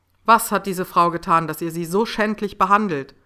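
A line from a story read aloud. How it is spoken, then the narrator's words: Loud furious question. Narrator (German): fragte er laut, und man konnte hören, dass die Wut in ihm kochte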